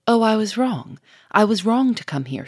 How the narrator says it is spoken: she cried quickly, in changed, dolorous tones

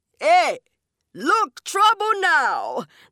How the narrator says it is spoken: the Jab Man cried

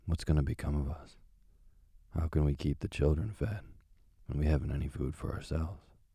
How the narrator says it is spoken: worrying about their poverty, he sighed and said to his wife

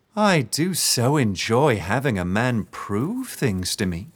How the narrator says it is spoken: she said, her voice sickly sweet

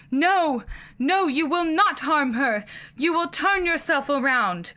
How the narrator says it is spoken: I screamed again and then yelled

